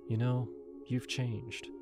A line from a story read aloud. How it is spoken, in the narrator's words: she said, her voice soft